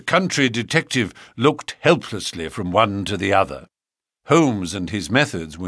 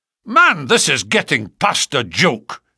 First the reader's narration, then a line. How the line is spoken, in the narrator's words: cried MacDonald, rising angrily from his chair